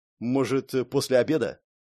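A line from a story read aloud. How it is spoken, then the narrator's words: Timid voice. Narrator (Russian): робко подал голос Барт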